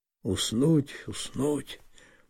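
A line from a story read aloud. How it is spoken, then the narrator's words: Repeated muttering. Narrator (Russian): пробормотал несколько раз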